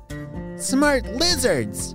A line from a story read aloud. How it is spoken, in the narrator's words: Zookeeper Dina yelled back